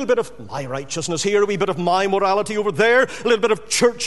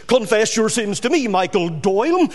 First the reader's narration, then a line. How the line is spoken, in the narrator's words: said the priest